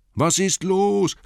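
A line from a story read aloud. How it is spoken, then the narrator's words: Calling. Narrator (German): rief Bilbo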